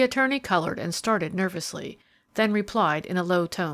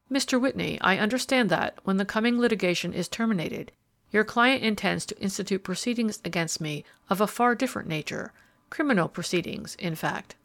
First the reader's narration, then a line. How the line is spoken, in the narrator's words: Harold Mainwaring remarked calmly